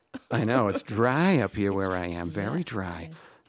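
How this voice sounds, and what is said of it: Slight vocal fry. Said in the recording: “I got a little vocal fry today”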